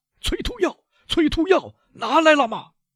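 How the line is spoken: Shouting while rushing out. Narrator (Chinese): 维勒夫一面冲出去，一面叫道

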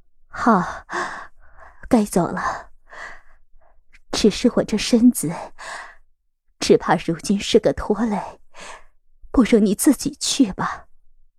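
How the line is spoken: Coughing, breathless. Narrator (Chinese): 佩兰咳了几声，喘息道

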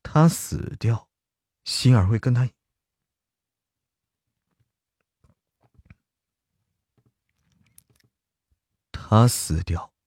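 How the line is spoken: Deep, grave voice. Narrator (Chinese): 司莫长沉声说道

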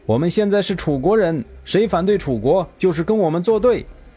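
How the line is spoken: Shouting. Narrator (Chinese): 还有人大叫道

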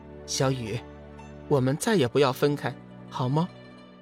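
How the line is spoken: Gentle, smiling. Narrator (Chinese): 小玉微微一笑，柔声道

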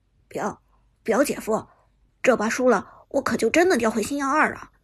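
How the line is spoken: Nervous, quiet. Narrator (Chinese): 陈烨紧张的……小声说道

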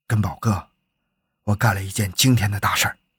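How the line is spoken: Lowered voice. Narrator (Chinese): 压低声音说

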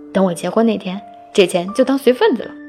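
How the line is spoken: Chuckling. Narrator (Chinese): 他嘿嘿一笑说

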